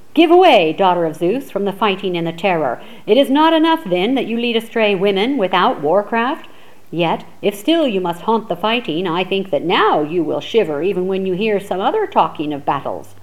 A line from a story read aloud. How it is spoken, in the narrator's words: Diomedes of the great war cry shouted after her